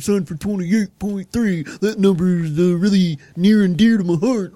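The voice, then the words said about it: Imitates another person's voice. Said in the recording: “That was my Tom Brady impression... It sounded a little bit like Belichick”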